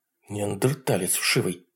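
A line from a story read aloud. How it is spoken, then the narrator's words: Muttering. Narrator (Russian): пробормотала Нора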